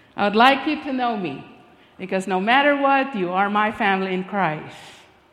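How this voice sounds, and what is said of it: Speaks with a non-native accent. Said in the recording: “this beautiful accent”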